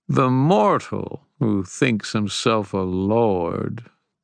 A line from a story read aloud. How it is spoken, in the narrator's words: the Titan purred